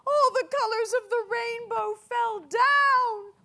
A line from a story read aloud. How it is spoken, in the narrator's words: cried the butterfly fairies